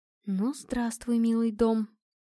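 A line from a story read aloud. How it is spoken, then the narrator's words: Through clenched teeth. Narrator (Russian): процедила сквозь зубы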